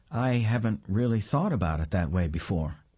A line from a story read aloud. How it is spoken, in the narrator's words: says